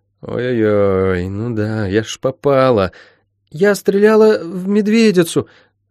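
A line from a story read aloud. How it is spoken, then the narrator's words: Strained forced words. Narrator (Russian): выдавила она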